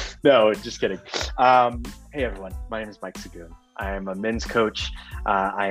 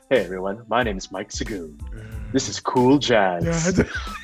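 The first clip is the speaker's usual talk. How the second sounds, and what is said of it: Put-on podcast host voice. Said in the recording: “podcast voice right there. This is my podcast voice.”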